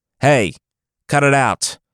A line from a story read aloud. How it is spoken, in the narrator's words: the Caliph yelled